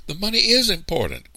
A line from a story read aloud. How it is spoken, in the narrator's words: cried Sarah Ida